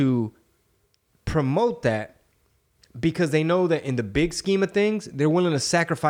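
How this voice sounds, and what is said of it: Usual voice. Nothing is said of it.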